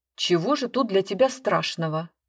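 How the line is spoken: Irritated. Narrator (Russian): говорит он раздраженно

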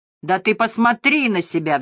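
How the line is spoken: Roar. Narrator (Russian): взревел он

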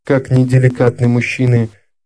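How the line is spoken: Sad voice. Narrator (Russian): печально промолвила Лаура

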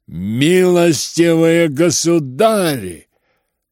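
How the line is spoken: Thunderous shout. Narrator (Russian): закричал он громовым голосом Птицыну

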